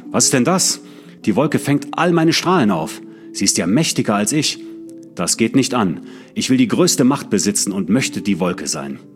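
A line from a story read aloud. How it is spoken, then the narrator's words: Furious shout. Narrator (German): da rief er voll Zorn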